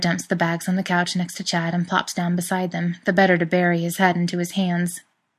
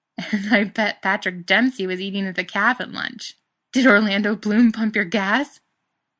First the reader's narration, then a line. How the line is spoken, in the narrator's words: He still chuckling to himself